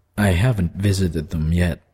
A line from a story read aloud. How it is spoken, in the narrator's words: Brian said miserably